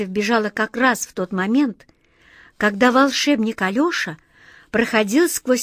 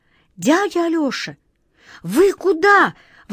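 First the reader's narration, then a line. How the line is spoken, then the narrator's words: Exclaiming. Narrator (Russian): воскликнула Катя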